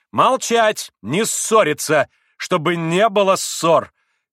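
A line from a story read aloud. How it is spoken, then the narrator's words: Commanding shout. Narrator (Russian): крикнула повелительно Грушенька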